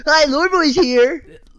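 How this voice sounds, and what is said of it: Imitates another person's voice. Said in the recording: “here's my impression, Ethan ... Do I sound like that?”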